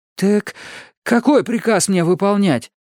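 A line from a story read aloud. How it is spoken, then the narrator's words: Timid babble. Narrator (Russian): пролепетал я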